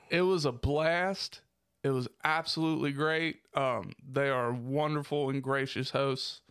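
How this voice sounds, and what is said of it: Strained voice, losing it. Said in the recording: “I'm dying. ... I really am dying, people. I'm losing my voice here.”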